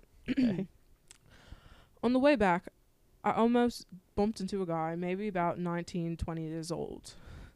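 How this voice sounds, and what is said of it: Put-on British accent. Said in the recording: “I'm gonna read this in a British accent.”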